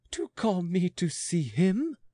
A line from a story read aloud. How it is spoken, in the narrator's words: turning pale, and gasped in reproach